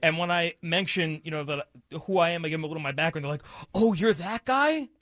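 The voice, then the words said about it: New York accent. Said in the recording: “has a very strong New York accent now ... he's back to a New York accent ... I heard a little bit there”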